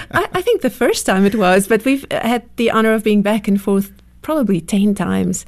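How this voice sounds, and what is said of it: South African accent. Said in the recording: “So good to hear your wonderful accent ... coming from South Africa”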